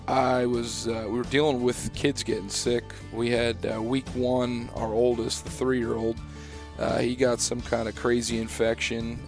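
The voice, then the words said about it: Hoarse, fading voice. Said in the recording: “as you can probably tell, I'm kind of losing my voice”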